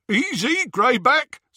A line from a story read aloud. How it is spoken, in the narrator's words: said Scabier, over the jeering of the others